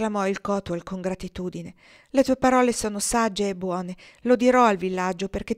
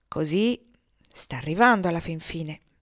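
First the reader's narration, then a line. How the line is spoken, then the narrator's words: Low-voiced remark. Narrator (Italian): commentò Niaz a bassa voce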